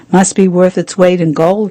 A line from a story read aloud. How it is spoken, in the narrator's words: he said